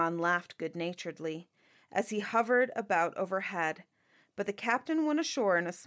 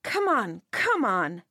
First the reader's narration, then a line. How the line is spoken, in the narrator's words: cried